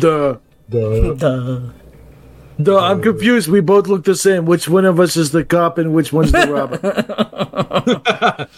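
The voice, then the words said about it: Dopey, dim-witted imitated voice. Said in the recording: “my John Cena derp impression”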